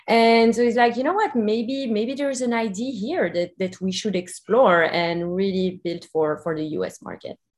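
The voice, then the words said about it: Belgian accent. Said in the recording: “You can hear my accent. I'm also from Belgium”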